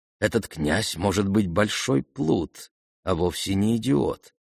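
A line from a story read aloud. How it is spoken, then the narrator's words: Whispered. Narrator (Russian): шепнула она Аглае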